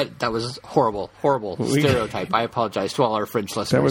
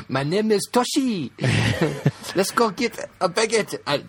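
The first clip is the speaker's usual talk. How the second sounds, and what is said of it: Bad put-on Chinese accent. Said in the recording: “That was the worst Chinese accent I've ever heard.”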